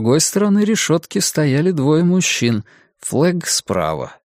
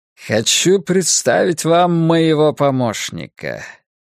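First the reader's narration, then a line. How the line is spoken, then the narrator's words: Short chuckle. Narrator (Russian): Флэг хохотнул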